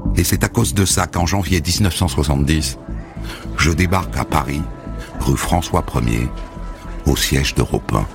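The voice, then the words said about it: Regional French accent. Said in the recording (French): “surtout ne perds pas ton accent, hein? Corrige-le, ne le laisse pas trop traîner”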